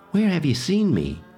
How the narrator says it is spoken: she asked anxiously

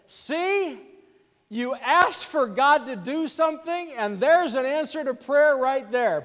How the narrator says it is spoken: still talking loudly

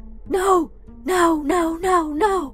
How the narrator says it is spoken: she is screaming

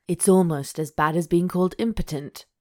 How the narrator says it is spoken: he grumbled

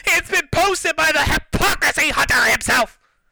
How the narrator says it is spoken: Francis yelled

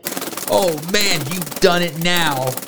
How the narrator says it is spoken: yelled Lily

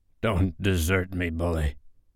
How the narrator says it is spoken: he whispered hoarsely

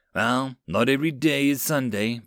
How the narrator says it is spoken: Blake sighed

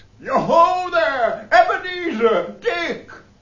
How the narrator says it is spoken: laughed all over himself, and called out

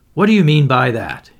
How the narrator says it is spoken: said sharply

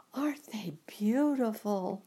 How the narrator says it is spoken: the girl asked, as she breathed in the spicy scent of the flowers

